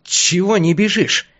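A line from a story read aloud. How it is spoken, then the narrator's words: Hissing. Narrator (Russian): Шипящим голосом поинтересовался я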